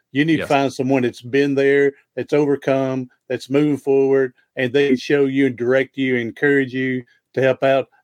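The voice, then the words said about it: Tennessee accent. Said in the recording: “I don't have that podcast voice. I just got my Tennessee voice.”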